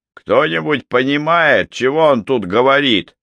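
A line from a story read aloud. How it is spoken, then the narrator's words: Shouting sergeant. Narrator (Russian): выкрикнул сержант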